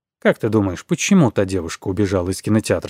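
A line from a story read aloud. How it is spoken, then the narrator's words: Plain question. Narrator (Russian): спросил я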